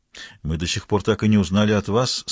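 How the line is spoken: Calm reminder. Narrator (Russian): спокойно напомнил Ребус

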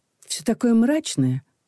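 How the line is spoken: Sighing. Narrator (Russian): вздохнула Людмила

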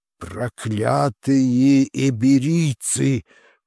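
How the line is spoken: Growling old colonel. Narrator (Russian): прорычал старый полковник

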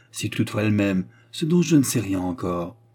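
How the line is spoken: Firm. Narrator (French): répondit Antoine d'un ton ferme

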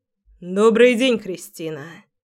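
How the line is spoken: Familiar husky voice. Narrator (Russian): звучит знакомый голос с хрипотцой

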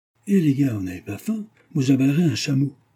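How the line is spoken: Northerner exclaiming. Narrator (French): s'exclame le ch'ti

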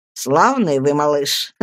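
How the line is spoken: Laughing speech. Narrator (Russian): смеясь, проговорил Стирфорд

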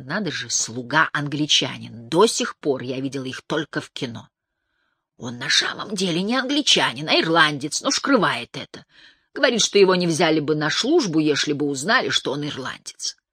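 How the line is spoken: Loud whisper. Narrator (Russian): она громким шепотом произнесла

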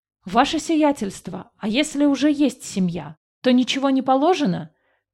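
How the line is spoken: Shouted out. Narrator (Russian): выкрикнул один из мужиков-работников

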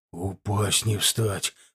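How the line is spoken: Hoarse. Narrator (Russian): хрипло выговорил Миготин

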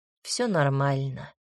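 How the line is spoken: Calm. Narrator (Russian): спокойно ответил Ракаэль

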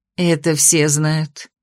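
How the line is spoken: Sad smiling. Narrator (Russian): грустно улыбнулась Костина

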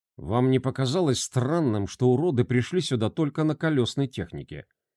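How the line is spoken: Quiet question. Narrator (Russian): тихо спросил оператор дронов

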